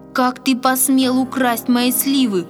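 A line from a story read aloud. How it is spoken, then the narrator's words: Shouting, trembling with anger. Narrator (Russian): дрожа от гнева, закричал он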